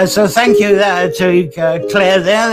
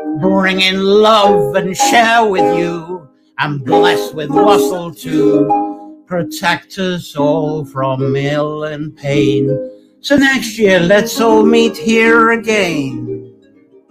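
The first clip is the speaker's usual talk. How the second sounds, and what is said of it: Drunken-sounding singing. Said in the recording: “I impersonated the drunkenness on that one.”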